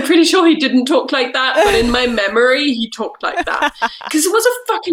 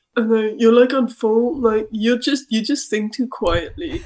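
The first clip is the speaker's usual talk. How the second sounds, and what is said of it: Put-on accent quoting someone. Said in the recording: “the way you do the accent”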